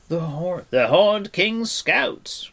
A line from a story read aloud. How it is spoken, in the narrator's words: cried Fluter